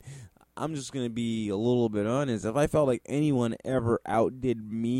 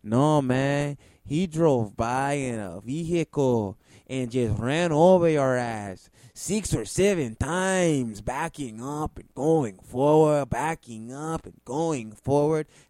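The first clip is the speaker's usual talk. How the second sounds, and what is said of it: Put-on Mexican accent. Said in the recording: “I use my Mexican accent to show you how serious”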